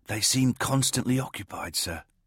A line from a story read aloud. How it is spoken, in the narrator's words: Beltane whispered back